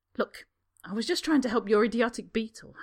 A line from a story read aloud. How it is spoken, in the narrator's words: Harry snaps